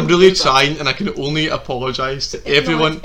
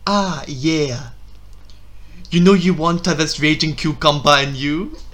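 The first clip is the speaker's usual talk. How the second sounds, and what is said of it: Put-on accent for a character. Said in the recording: “the accent as well... I appreciate the accent”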